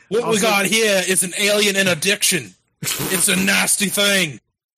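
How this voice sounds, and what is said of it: Steve Irwin-style Australian accent impression. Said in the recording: “You sound a little Australian there for a second ... A little New Zealandish ... Steve Irwin, I'm guessing.”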